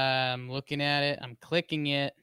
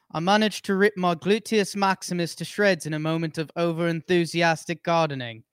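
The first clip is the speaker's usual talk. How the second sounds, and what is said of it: Put-on British accent. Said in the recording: “read the I managed line in a British accent? ... Scottish. ... That's really good.”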